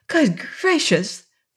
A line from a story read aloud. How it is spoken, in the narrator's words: cried Betsy